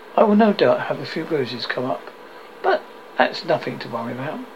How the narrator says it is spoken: Vincent chuckled and said

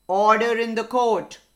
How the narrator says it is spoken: bellowed the judge

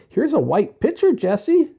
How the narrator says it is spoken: cried

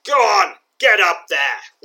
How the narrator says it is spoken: roars Pippa

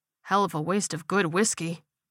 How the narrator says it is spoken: Baker muttered

